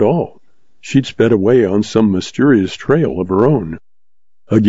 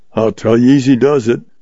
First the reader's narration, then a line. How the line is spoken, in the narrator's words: grumbled old Goodnight